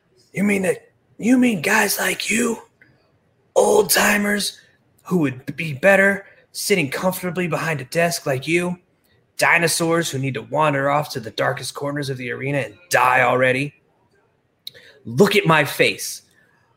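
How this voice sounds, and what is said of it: Imitates another person's voice. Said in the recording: “Best Stevie Richards impression”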